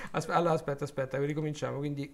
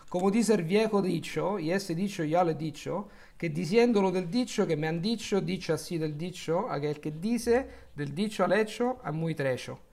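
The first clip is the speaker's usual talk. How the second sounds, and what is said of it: Spanish read in Roman Italian accent. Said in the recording (Spanish): “questo è il romanesco, quindi come lo direbbe un romano che non sa lo spagnolo ... Eso tampoco es el acento italiano, es el acento de un romano come yo”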